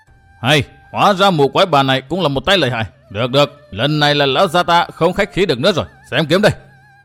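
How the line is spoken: Roaring. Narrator (Vietnamese): gã họ Tả bèn gầm lên

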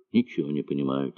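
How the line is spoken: Quiet. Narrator (Russian): тихо сказал

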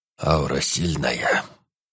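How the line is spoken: Sudden slightly hoarse old bass. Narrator (Russian): вдруг произнес старик чуть хрипловатым басом

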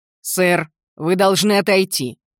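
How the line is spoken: Loud declaration. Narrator (Russian): заявил он достаточно громко, чтобы его можно было услышать на расстоянии 25 метров

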